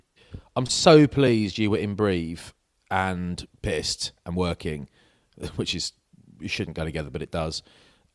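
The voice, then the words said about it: Slightly hoarse voice. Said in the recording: “I'm also a little bit hoarse today”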